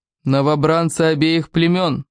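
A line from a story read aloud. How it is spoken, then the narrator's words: Gloomy roar. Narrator (Russian): Угрюмо проревел он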